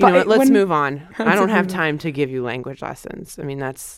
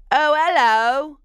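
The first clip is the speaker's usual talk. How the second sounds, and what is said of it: Put-on royal British accent. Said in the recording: “my British accent ... Oh, and that's like a Scottish person. ... No, that's a royal British person that I was. ... I'm playing Kate Middleton.”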